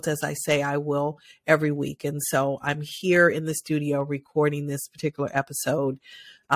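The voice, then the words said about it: Nasal, congested voice. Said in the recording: “my voice may sound a little nasally today. I do have COVID”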